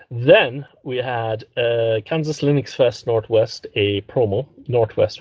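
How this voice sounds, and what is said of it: Put-on Irish accent. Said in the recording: “Why am I talking with an Irish accent?”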